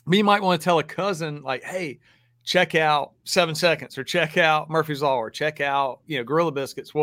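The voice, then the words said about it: Southern American accent. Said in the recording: “y'all hear my accent. I grew up in the South”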